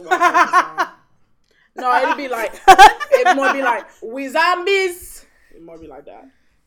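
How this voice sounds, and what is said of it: Put-on Caribbean accent. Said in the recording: “You just put on a Caribbean accent.”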